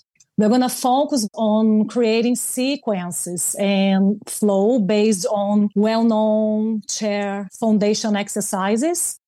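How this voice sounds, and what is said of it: Rich deep foreign accent. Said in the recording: “the richness of your deep accent”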